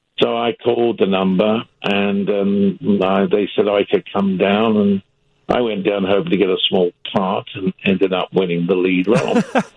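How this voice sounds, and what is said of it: British accent. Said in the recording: “I've got a British accent... I did have a British accent. I've had it for a long time.”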